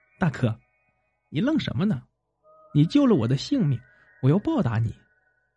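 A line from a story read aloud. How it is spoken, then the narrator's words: Giggling. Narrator (Chinese): 月亮朝他扑哧一笑说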